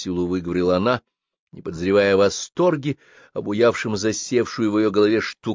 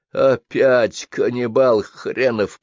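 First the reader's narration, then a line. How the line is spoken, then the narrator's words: Grumbled. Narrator (Russian): проворчал Жано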